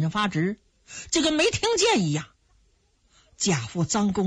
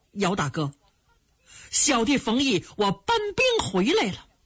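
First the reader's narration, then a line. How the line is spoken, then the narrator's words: Tearful cry. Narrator (Chinese): 冯毅流着眼泪就叫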